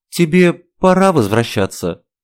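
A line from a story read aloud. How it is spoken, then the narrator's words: Sad clarification. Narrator (Russian): Грустно уточнила я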